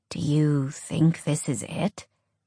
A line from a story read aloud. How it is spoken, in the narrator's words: Bear asked quietly